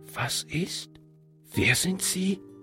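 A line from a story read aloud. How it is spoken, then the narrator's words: Whispered question. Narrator (German): fragte er flüsternd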